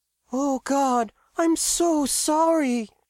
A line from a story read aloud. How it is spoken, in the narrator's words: she wailed when she heard about the situation